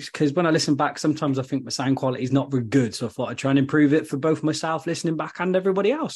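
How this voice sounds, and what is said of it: Gloucestershire/Worcestershire English accent. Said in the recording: “my dodgy, weird kind of Gloucestershire, Worcestershire accent”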